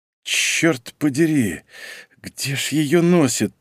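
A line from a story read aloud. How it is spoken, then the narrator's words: Grumbling. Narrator (Russian): проворчал он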